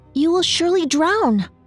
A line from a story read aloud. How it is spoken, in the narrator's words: Snow White exclaimed to the dwarf